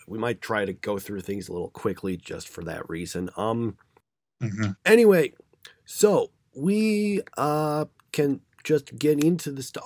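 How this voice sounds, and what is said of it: Slightly hoarse voice. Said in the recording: “I'm still kind of getting over the cold that I had last week ... my voice sounds even more different now than it did last week ... Sorry if I sound a little hoarse.”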